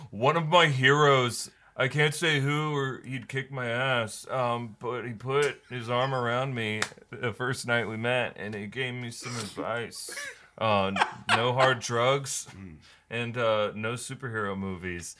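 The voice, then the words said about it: Imitates another person's voice. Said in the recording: “that impression... you nailed the emotion... you sound like Timothy Chandelier and a half”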